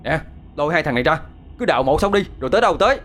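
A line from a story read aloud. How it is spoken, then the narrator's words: Harsh shout. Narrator (Vietnamese): Hai Phong quát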